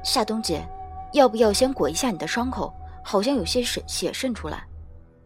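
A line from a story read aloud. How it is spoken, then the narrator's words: Low voice. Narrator (Chinese): 低声道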